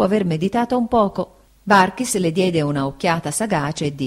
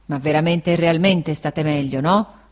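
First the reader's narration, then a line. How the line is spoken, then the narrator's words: Grumbling. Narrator (Italian): brontolò Barkis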